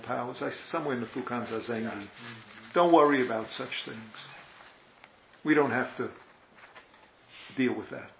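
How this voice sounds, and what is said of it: New York accent. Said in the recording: “That's my New York accent comes through.”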